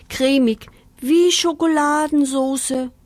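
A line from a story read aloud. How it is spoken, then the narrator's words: Contented moan. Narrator (German): stöhnte Pinky vor Behagen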